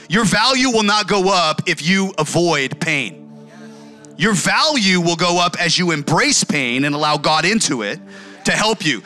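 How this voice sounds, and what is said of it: Yelling, loud preaching voice. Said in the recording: “I'm yelling at you”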